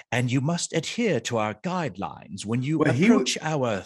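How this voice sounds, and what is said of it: British Shakespearean voice, Mickey Cottrell impression. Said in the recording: “the other guy, he does this very British and very Shakespearean ... Southern twang mixed with he's doing Shakespeare ... a very classically trained, you know, actor sounding voice”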